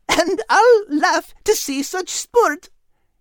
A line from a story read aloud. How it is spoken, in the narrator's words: Kate added with a giggle